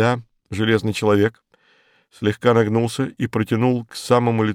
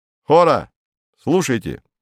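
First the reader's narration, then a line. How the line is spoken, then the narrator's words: Shouted. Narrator (Russian): крикнула Сида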